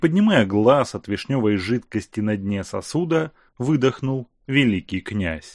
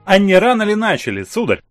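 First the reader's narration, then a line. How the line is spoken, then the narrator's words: Stern question. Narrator (Russian): строго спросила Мария Павловна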